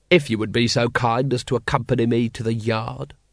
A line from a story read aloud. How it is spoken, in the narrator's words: said Vimes